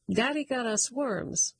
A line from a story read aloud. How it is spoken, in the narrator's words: the fish exclaim in one